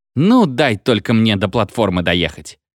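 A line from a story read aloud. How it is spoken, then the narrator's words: Through gritted teeth. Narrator (Russian): сквозь зубы сказал машинист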